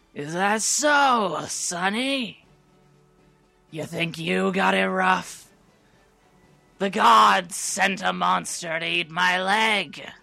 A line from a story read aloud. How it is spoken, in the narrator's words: the gnome in a gravelly smoker voice